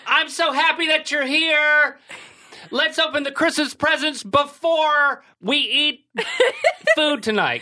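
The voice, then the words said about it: Loud, talking-down-to-children imitation. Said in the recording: “like she's talking to a classroom full of children who will not listen ... it's just the volume. It's like, bring it down, girl ... She likes to speak loudly”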